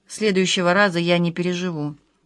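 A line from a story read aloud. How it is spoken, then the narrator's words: Gloomy. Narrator (Russian): мрачно сказала Маша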